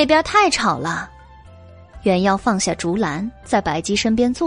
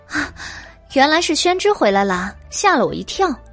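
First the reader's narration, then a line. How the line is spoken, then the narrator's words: Laughing. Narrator (Chinese): 笑道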